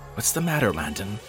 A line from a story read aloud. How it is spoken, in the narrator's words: I asked anxiously